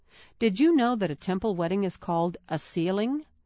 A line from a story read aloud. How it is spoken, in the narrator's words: Mom laughed